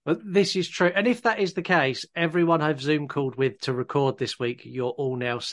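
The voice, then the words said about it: Voice sounds congested from cold. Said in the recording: “I've got a bit of a cold”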